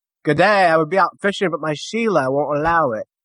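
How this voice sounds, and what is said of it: Bad put-on Australian accent. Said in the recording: “that is probably the worst accent I've ever heard ... Sounded like someone from bloody Birmingham”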